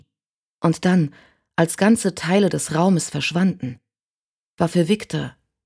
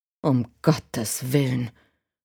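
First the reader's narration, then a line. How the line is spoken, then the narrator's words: Murmuring man. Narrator (German): murmelte der Mann neben Sarah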